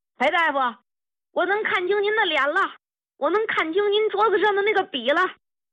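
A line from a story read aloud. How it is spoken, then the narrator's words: Old soldier shouting excitedly. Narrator (Chinese): 老兵 一进门就大喊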